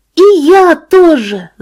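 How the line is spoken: Child shouting. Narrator (Russian): закричала десятилетняя Тилиша

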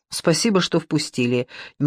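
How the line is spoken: Nervous rapid chatter. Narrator (Russian): нервно затараторил сосед

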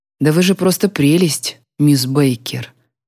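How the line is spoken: Quiet, sincere. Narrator (Russian): тихо произнес он, говорит искренне

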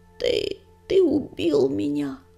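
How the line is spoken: Hoarse rasp. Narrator (Russian): прохрипел оруженосец

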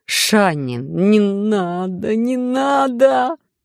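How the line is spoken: Moan with stifled hysterical laughter. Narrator (Russian): Простонал Анатоль, тщетно пытаясь сдерживать вопли и приступы истеричного смеха

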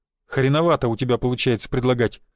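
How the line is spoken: Snorting reply. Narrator (Russian): хмыкнул я в ответ

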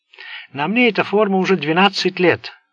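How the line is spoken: Plain. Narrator (Russian): ответил Болан

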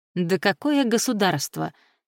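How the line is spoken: Snorting. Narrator (Russian): хмыкнул

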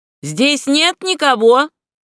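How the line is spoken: Shouted. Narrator (Russian): крикнул Дагерсен

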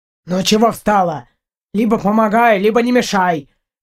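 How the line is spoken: Rude, gruff. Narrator (Russian): грубо сказал Партур

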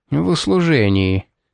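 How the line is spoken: Gloomy. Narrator (Russian): повторил тот мрачно

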